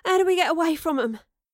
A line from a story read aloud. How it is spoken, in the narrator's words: Astrid panted